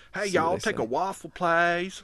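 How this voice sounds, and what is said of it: Put-on Southern US accent. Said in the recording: “talk like that shit to people ... he's totally from here ... he's from Rome, Georgia ... talk in his regular ass accent”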